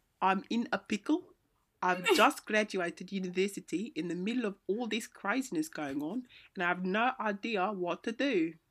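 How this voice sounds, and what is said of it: Put-on South African accent. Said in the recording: “read my letter in a South African accent ... This is gonna be so terrible.”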